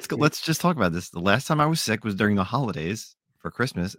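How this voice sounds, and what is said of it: Sick, under-the-weather voice. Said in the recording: “my voice is, I apologize for my voice because I am a little sick. I'm a little under the weather.”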